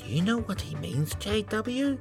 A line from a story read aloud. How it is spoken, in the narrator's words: AJ whispered